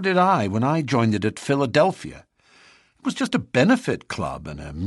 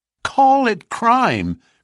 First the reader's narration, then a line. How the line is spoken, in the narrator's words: cried Morris, his voice vibrating with passion